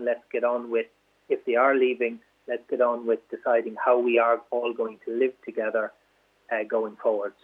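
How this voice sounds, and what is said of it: Irish border region accent. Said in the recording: “will know from your accent that you come from the border region”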